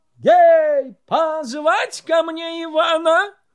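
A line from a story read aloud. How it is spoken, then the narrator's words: Hasty shout. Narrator (Russian): Царь поспешно закричал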